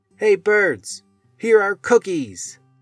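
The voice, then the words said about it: Loud shouting voice. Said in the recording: “he shouted in a loud voice”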